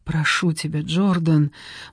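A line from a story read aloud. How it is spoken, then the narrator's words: Silent pleading. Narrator (Russian): мысленно взмолилась Клея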